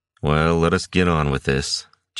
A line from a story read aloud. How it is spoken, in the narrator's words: Jinzan grumbled